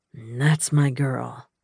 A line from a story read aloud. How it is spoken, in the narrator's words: he groaned